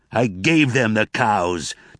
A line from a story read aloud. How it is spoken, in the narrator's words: Tobias roared, his face crimson red, his hands trembling